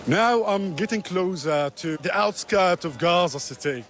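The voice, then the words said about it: Excited, thrilled voice. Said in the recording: “my voice is truly like thrilled, but I'm extremely happy”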